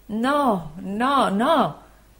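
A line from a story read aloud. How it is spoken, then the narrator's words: Anguished voice. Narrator (Italian): rispose il dottore con voce angosciata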